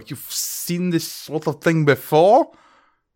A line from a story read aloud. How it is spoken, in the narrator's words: sputter and go